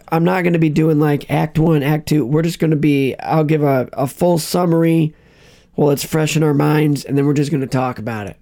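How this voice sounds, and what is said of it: Sore, strained voice. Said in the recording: “his voice is so sore”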